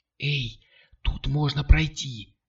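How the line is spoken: Whispered. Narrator (Russian): шепнула она

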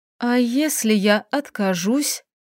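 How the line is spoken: Choked, uncertain forcing out. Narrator (Russian): горло сдавил ком, неуверенно выдавила

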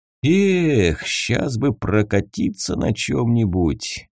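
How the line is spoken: Dreamy drawl. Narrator (Russian): мечтательно протянул Тавгай

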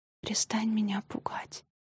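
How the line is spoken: Request. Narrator (Russian): попросила она

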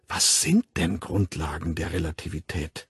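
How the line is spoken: Whispered question. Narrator (German): fragte er Burnett im Flüsterton

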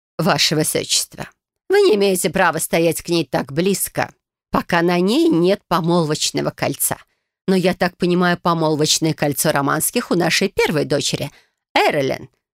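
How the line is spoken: Snorting. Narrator (Russian): хмыкнула мать

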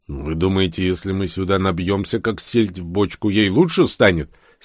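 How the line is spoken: Angry question. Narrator (Russian): сердито спросил у них Бур

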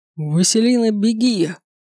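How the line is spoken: Growl. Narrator (Russian): раздалось рычание

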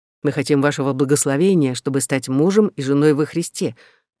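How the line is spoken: Quick correction. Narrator (Russian): быстро поправил меня Бернард

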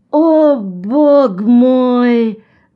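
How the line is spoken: Groan. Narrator (Russian): застонал Джон

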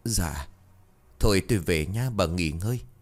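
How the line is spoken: Sighing. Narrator (Vietnamese): Bà liền thở dài rồi bảo

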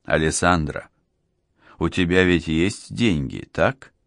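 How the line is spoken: Plain question. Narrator (Russian): спросил Гварилья

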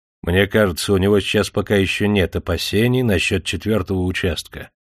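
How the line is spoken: Calm polite answer. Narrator (Russian): все так же спокойно и вежливо отвечал Легейт

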